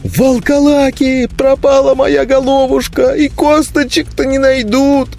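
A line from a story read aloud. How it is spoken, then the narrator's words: High-pitched whimpering. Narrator (Russian): тонко захныкал возле самого уха Лузга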